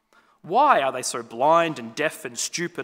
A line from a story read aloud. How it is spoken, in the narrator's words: asked the junior angel rather crossly